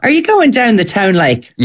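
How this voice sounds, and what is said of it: Inconsistent attempted Irish accent. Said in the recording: “Let me try and learn your accent ... What do you think of my accent so far? ... You've wandered through several streets of Dublin via Cork.”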